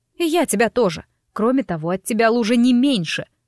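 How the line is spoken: Snapping retort. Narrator (Russian): огрызнулась я

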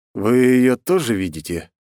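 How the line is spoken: Slightly trembling question. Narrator (Russian): слегка подрагивающим голосом спросил

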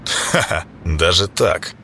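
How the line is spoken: Short chuckle. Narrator (Russian): Клейдом хохотнул

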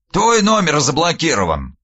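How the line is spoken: Snort. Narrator (Russian): фыркнул он

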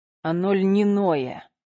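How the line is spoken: Through gritted teeth. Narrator (Russian): процедил Никита

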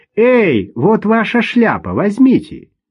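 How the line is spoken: Young boy shouting after. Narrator (Russian): Парнишка лет 12 крикнул ему вслед

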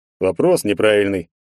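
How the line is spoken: Big man snorting. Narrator (Russian): хмыкнул здоровяк

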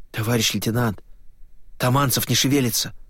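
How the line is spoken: Frightened mutter. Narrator (Russian): испуганно пробормотал Левашов

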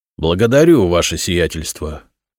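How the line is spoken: Solemn reply. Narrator (Russian): торжественно ответил Игнат

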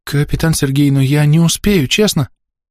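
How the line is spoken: Frightened exclamation. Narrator (Russian): Испуганно воскликнула Элика

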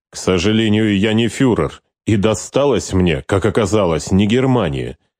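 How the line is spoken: Through gritted teeth. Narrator (Russian): Регент процедил

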